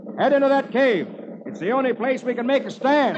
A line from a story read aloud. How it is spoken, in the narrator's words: yells